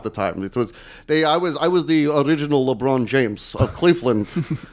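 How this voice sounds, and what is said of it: Put-on Russian accent. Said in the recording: “Really getting Russian again, huh?”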